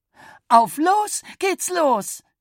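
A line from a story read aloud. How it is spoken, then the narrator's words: Calling out. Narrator (German): rief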